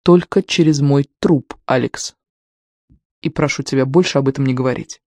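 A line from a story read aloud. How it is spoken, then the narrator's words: Mother's even interruption. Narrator (Russian): Ровным голосом мать прервала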